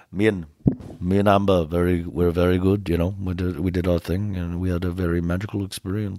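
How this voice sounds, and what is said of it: Slow, low Johnny Depp impression. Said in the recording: “he was talking so slow ... it's always low and there's like a little bit of an accent there”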